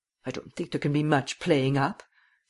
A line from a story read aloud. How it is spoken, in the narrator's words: said Miss Cummins bitterly